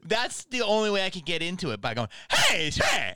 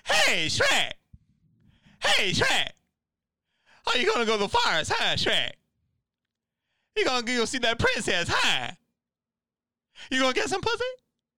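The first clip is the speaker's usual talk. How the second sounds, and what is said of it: Eddie Murphy impression as Donkey. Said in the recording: “the joke was like Eddie Murphy was going to come out. Let me see if I can do this. ... I've never heard you do an impression before.”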